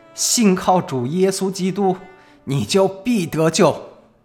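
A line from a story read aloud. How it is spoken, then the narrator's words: Dying last-breath cry. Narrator (Chinese): 哈珀尔牧师用尽他最后的一口气喊道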